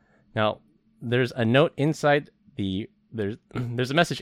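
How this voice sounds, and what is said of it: Usual voice. Nothing is said of it.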